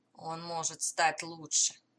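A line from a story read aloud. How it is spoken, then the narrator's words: Grumbling mutter. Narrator (Russian): буркнул Далтон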